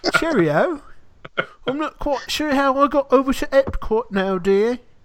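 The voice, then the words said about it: Put-on English accent. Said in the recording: “got an English accent all of a sudden”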